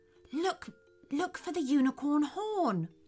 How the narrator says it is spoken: whispered Theodore

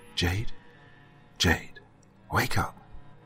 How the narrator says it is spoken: he called to her in a soft voice

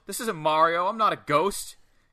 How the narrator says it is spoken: Savoy yells

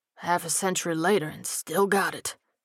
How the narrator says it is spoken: he murmured

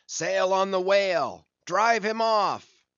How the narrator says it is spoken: struggling, shouted

